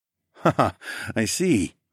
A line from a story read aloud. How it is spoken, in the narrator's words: I chuckled